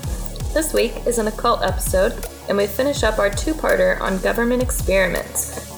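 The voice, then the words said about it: Voice slightly off from cold. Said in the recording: “my voice sounds a little off. I am recovering from a cold”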